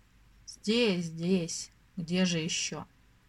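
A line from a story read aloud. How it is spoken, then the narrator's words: Tired voice. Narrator (Russian): ответил он, наконец, усталым голосом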